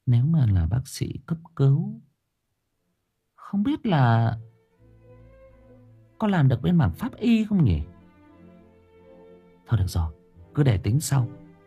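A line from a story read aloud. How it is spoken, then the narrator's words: Muttering. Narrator (Vietnamese): Cô Hân miệng lẩm bẩm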